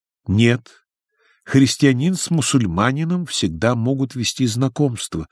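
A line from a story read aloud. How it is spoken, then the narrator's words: Plain, young woman. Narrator (Russian): ответила девушка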